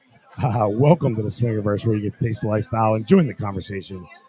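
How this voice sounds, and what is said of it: Damaged, strained voice. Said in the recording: “My voice is still shot.”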